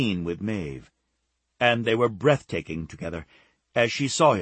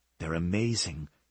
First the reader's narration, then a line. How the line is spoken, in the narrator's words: Becca whispered to Kate